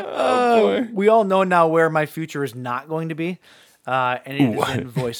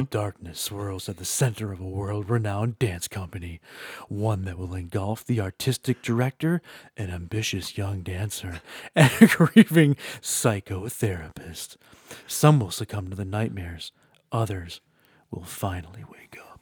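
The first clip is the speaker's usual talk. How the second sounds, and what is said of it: Attempted deep dramatic trailer voice. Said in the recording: “Change your voice a little bit. ... I don't have a deep voice, ... Sound like Kathleen Turner.”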